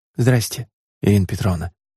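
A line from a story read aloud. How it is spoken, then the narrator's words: Almost silent whisper. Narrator (Russian): почти беззвучно прошептав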